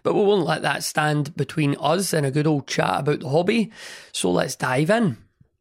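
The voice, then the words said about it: Hoarse, partly lost voice. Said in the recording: “my voice is a bit funny this week ... basically me losing my voice ... my voice has been a bit funny the last few days”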